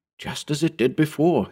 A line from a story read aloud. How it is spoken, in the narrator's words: he whispered